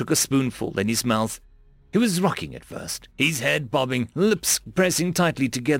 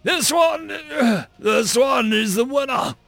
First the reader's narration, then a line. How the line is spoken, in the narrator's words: he called out